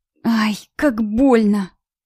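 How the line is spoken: Quiet ashamed moan. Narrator (Russian): тихо простонала я, сгорая со стыда

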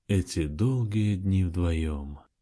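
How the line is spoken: Dreamy drawl. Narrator (Russian): мечтательно протянул он

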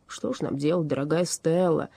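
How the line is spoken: Almost moaning. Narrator (Russian): чуть не простонал он

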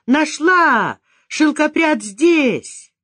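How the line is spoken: Thin high-pitched shout. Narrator (Russian): кто-то закричал тоненьким голоском

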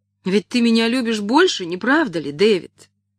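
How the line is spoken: Exclamation. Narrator (Russian): воскликнула она

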